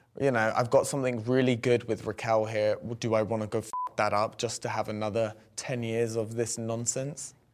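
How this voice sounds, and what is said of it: London accent. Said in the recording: “from London, got the accent”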